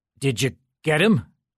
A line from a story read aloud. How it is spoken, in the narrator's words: Jim managed to croak out